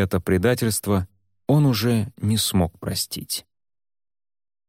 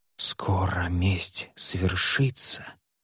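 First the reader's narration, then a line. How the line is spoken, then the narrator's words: Whisper. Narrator (Russian): шептала похоть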